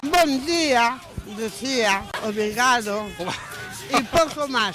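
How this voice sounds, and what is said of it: Put-on Portuguese accent. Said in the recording (Spanish): “con acento un poco portugués”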